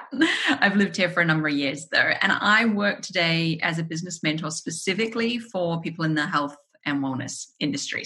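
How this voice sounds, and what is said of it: New Zealand accent. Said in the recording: “It's actually a New Zealand accent that you hear there.”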